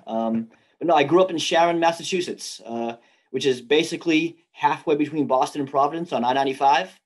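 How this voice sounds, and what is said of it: Slight New England accent. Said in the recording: “You've got a little bit of a New England, Northeast type accent.”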